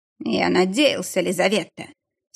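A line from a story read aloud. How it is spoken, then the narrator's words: Husky, strained voice. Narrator (Russian): севшим голосом продолжил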